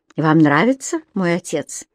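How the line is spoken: Calm, unhostile question. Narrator (Russian): Спокойно, без всякой враждебности в голосе, спросил Дэниел

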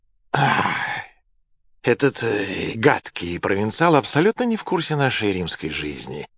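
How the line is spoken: Sighing. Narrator (Russian): вздохнул Нерон

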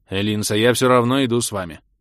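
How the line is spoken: Stern. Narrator (Russian): сказал он так строго

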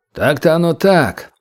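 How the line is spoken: Gloomy reply. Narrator (Russian): уныло отозвался чекист

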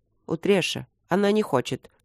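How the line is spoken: Quiet. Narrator (Russian): негромко высказался Трот

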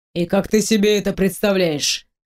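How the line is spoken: Man's wry snort. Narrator (Russian): хмыкнул мужчина

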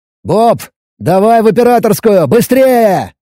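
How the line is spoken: Shouting into radio. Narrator (Russian): крикнул я в рацию

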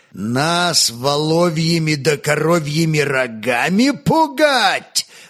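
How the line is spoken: Roar. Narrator (Russian): взревел он

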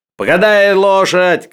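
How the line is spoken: Shout. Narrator (Russian): крикнул Денисов казаку

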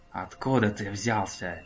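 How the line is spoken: Reluctant hiss. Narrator (Russian): Прошипел Немраз, жалея, что гордо промолчать у него не выходит

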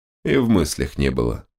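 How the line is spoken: Calm continuation. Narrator (Russian): спокойно продолжил паладин

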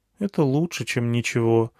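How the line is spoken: Sad. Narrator (Russian): грустно сказала Алиана

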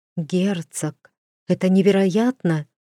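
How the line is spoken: Breathless young woman. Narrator (Russian): выдохнула одна из невест

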